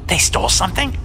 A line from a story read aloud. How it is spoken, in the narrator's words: snapped